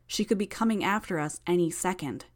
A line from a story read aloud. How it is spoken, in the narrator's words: I nervously pointed out